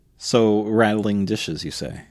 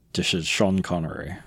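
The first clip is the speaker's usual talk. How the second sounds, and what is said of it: Sean Connery impression. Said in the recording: “That actually was pretty good. ... That was pretty lame. I think if his accent had been just a hair better.”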